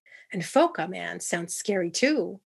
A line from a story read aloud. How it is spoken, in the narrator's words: Gosha exclaimed